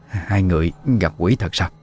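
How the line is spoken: Trembling old woman's voice. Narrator (Vietnamese): Giọng bà run run

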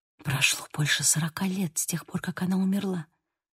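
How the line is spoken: Whisper. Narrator (Russian): прошептала

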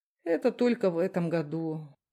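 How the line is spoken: Sigh. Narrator (Russian): вздохнул Толкачев

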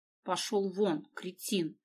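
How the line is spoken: Through clenched teeth. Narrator (Russian): сквозь зубы произнесла Дина

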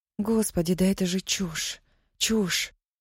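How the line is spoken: Whisper. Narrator (Russian): прошептала она

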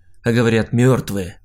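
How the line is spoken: Tearful snort. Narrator (Russian): хмыкнул, вытирая слезу

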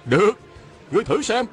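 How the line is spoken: Shouting. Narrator (Vietnamese): Phan Tú Đạt la lên

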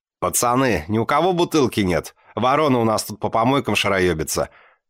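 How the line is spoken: Mocking laughter. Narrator (Russian): Глумливо смеясь, заливается зяба

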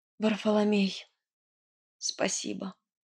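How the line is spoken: Hoarse breathless exhale. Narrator (Russian): хрипло выдохнула я

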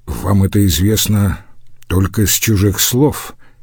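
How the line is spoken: Almost inaudibly quiet. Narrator (Russian): Иорданус говорил так тихо, что было почти ничего не разобрать

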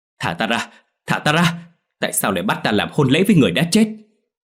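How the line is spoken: Terrified scream. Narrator (Vietnamese): Đình Quân hoảng sợ hét lên

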